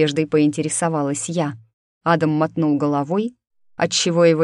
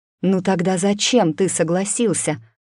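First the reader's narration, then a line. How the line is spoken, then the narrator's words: Hissing whisper. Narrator (Russian): свистящим шепотом уточнила я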